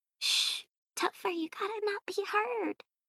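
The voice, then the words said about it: Whispering. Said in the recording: “Whispering”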